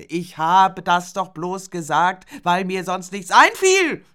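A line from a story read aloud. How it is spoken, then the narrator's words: Shouted. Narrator (German): schrie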